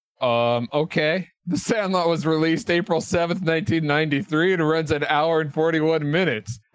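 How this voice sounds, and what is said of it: Put-on accent. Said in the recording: “can you give us a quick overview of the production specs for The Sandlot in whatever accent you would like? ... How do you like my accent so far?”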